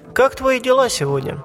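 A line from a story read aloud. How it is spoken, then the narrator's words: Ordinary tone. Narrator (Russian): обычным тоном произнесла Пони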